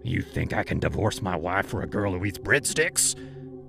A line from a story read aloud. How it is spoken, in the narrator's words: he growled